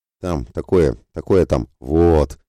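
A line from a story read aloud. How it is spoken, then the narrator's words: Breathless, strained. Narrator (Russian): Только и смог, запыхаясь, выдавить он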